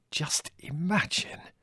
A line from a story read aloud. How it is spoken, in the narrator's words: he said to me in a hushed whisper